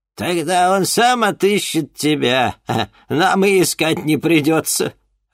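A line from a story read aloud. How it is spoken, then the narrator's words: Laughing. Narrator (Russian): рассмеялась мадам Анаит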